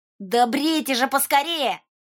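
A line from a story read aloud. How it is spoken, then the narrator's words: Wary shout. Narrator (Russian): крикнул Волька, опасливо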